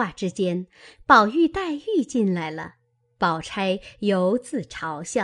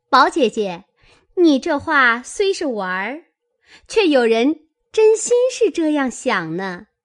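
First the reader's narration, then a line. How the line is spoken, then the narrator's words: Sly sneering laugh. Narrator (Chinese): 湘云阴笑道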